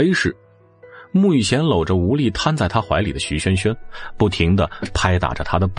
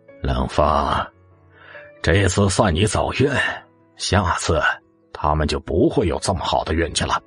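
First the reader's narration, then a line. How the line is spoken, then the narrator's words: Cold echoing voice. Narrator (Chinese): 冷柯冰冷的声音回荡在空旷的房间里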